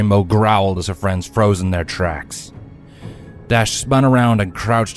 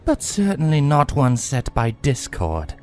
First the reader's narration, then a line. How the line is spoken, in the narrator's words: a voice purred